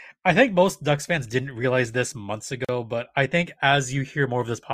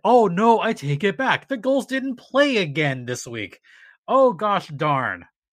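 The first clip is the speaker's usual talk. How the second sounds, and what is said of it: Sarcastic mock-disappointed delivery. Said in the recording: “I'm done being sarcastic. ... Oh, that was sarcasm. I couldn't tell. You sounded so genuine.”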